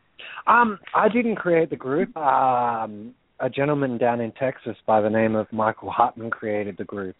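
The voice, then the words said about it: Australian accent. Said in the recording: “all the way from Australia, and you still have an Australian accent”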